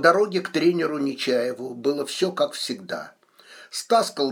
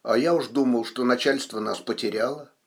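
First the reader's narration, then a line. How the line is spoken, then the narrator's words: Grumbling. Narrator (Russian): Стас пробурчав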